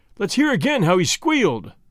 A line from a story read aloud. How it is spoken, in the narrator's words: they cried